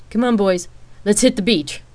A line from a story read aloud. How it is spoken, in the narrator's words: Rain shouted towards the game room